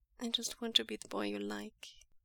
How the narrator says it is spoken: Wei Ying whispers

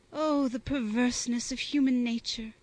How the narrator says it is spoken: exclaimed Lady Maria

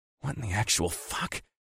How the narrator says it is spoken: I whispered under my breath

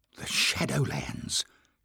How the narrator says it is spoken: she murmured

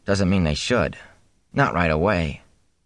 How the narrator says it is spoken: muttered

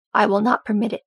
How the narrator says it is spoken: he repeated sternly

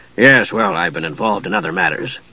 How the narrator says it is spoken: Dugan muttered, appearing displeased

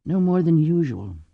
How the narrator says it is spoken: she sighed

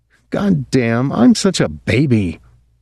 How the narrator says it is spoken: he said bitterly

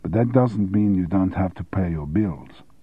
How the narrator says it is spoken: said dryly

